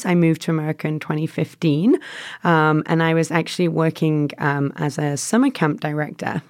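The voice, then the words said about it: Strong English accent. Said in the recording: “I have a bit of a strong accent. ... I'm from England originally.”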